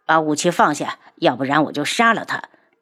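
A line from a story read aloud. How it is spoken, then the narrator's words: Cold voice. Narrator (Chinese): 他冷声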